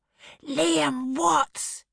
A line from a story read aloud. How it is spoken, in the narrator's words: he roared again